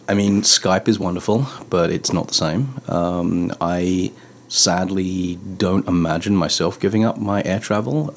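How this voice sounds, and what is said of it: Non-local foreign accent. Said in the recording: “as you can probably tell from my accent, I was not born here.”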